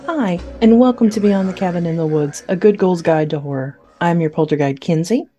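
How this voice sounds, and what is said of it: Public-radio announcer voice. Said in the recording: “doing her NPR voice”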